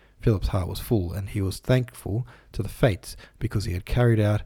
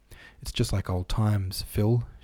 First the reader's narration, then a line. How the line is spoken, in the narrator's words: she said